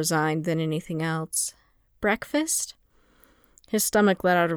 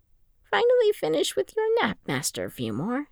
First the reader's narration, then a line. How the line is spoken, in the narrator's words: Jocasta asked in that mild tone she used when she was resisting the urge to chew someone out